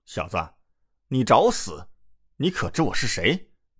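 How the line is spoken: Angry. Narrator (Chinese): 叶飞怒道

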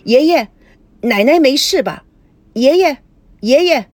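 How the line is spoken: Anxious pressing question. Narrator (Chinese): 赵熙紧张的追问

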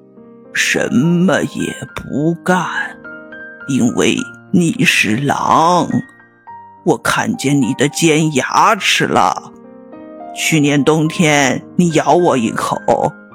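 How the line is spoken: Slow calm reply. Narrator (Chinese): 老山羊冷静的看了他一眼，慢吞吞的回答说

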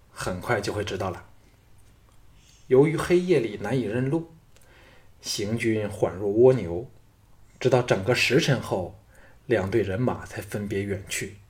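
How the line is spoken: Low voice. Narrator (Chinese): 京俊低声道

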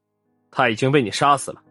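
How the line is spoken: Cold. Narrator (Chinese): 王队冷冷的说

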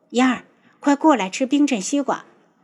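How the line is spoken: Hurried call. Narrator (Chinese): 急忙招呼

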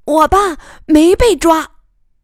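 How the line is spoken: Sudden loud child. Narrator (Chinese): 苗瑶怀中的昌昌突然大声说

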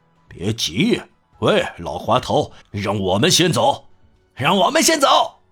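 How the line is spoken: Gang of robbers shouting. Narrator (Chinese): 一帮强盗嚷起来

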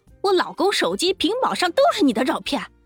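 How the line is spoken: Trembling with rage. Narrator (Chinese): 胖女人气得浑身发抖，她怒道

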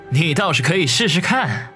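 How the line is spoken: Snickering. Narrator (Chinese): 他嘿嘿一笑，说道

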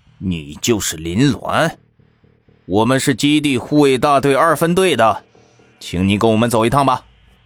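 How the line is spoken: Displeased, low deep voice. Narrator (Chinese): 陈队长有些不满的，沉声道

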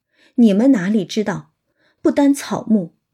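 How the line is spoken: Sighing. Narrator (Chinese): 宝玉叹道

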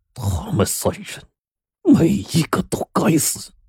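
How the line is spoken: Through gritted teeth. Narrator (Chinese): 张忠厚咬牙切齿的说

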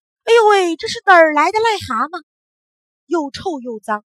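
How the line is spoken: Loud cry. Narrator (Chinese): 奶奶…大叫起来

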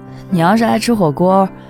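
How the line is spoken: Shy, smiling. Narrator (Chinese): 陈广志笑着，害羞地说

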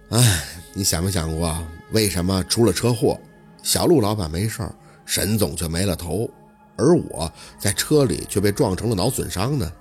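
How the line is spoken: Sighing, slow, distant. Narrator (Chinese): 盛辉长叹了口气 声音悠悠的出口

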